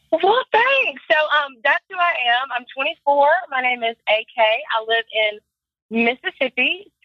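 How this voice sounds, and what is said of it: Mississippi accent. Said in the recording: “There's going to be a different accent this go round.”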